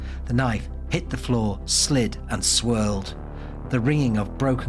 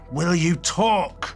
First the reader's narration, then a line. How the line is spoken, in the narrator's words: Tay snarled